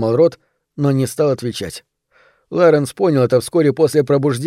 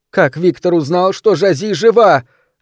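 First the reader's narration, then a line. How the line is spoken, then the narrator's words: Shouting again. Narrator (Russian): вновь закричала Изабель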